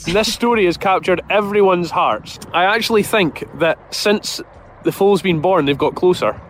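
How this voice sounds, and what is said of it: Strong regional accent. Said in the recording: “the farmer has an outrageous accent ... I love his accent”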